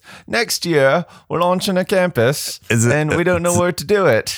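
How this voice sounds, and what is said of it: Weak attempt at Australian accent. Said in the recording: “I'll do it in a different voice ... I try to do the Australian accent, but I always fail.”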